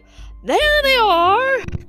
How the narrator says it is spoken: Cruella cried

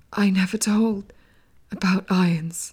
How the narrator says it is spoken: breathed, obviously struggling to hang on to life

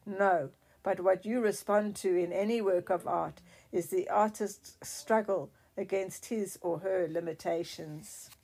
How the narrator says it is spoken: growled

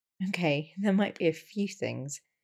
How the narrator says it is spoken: she said, laughing

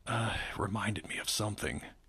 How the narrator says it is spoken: he mumbled

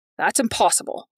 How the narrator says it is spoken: Patrick said

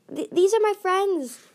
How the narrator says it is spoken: Tsunami cried

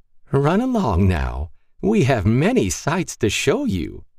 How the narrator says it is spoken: she said, laughing maniacally

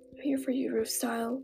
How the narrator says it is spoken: whimpered

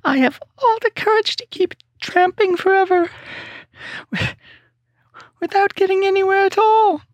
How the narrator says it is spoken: said the Cowardly Lion with a whimper

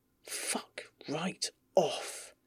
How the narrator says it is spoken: hisses

